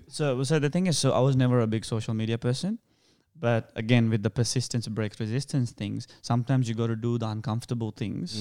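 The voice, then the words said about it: Sri Lankan-sounding accent. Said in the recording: “my accent was a thing ... your accent, you know ... Indian accent ... Even though I don't sound Indian, I actually sound more Sri Lankan.”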